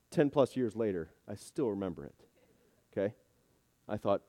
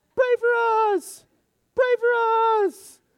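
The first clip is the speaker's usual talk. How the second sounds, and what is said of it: Imitates chanting team players. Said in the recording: “That's my best imitation.”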